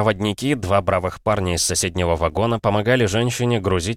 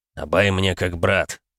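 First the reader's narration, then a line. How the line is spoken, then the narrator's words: Grumbled. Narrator (Russian): проворчал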